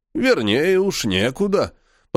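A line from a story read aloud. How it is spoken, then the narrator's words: Grumbling. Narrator (Russian): проворчал тот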